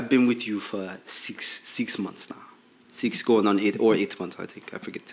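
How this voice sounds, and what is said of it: Put-on African accent. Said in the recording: “You had the Latin accent, and then you went to an African. ... I was African the whole way.”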